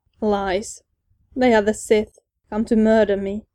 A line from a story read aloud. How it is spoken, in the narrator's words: Sidious spat